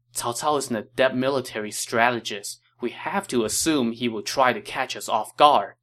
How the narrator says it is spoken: Chen Gong said

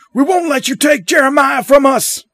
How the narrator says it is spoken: Someone shouts

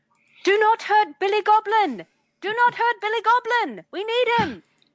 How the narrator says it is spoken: she starts yelling

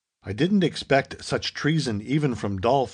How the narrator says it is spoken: exclaimed the young American

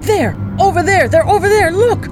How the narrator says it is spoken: shouting

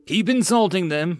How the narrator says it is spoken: Mills yelled at his men

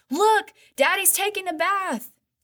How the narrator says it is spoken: her little brother yelled

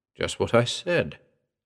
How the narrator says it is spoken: replied calmly

